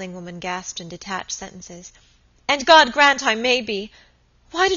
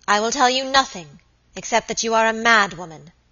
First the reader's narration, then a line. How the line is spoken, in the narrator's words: answered Lady Audley in a cold, hard voice